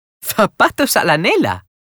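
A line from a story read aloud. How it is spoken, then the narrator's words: Laughing exclamation. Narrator (Spanish): exclamó Sofía riendo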